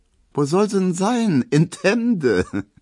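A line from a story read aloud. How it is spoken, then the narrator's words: Laughing remark. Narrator (German): meint Emma und lacht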